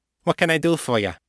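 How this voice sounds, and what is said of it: Thick nasal Chicago South Side accent. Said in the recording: “in her thick, nasal, South Side accent”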